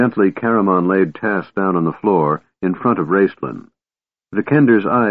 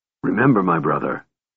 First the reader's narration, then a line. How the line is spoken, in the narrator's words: Raceland said coldly